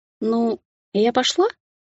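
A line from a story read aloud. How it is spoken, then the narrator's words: Timid question. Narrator (Russian): спросила робко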